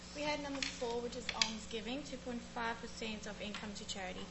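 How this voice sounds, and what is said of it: South African accent. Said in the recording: “she's from South Africa originally, so you'll probably hear that accent”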